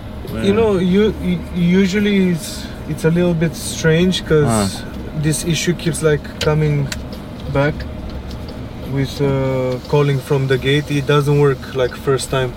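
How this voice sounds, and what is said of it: Romanian accent. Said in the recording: “You have an accent though... Romania.”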